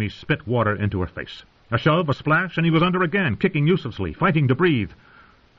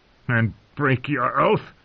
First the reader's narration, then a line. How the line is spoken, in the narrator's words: snarled